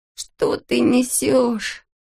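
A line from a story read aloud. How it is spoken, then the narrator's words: Groaning. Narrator (Russian): застонал Алешка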